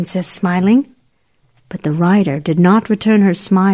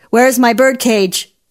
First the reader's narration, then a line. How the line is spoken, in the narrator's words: cried out